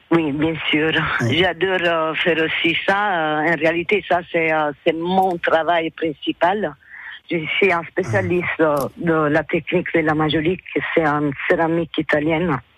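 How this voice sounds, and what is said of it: Italian accent in French. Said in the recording (French): “Je suis italienne. Ça se sent aussi de mon accent.”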